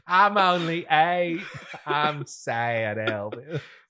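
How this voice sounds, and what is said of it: Really bad put-on accent. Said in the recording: “the really bad accent”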